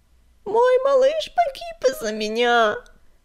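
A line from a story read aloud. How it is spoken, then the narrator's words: Bitter sobbing. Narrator (Russian): горько рыдала она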